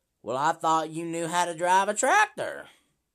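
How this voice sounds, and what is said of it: Imitates another person's voice. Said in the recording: “I'm going to try to do a good impression.”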